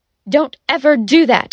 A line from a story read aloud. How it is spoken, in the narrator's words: he shouted